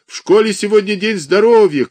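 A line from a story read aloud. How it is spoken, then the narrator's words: Shouted reply. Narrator (Russian): кричали в ответ ему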